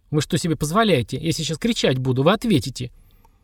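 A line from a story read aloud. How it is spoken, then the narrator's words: Trembling, then furious. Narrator (Russian): Она говорила что-то еще дрожащим голосом, потом яростно угрожая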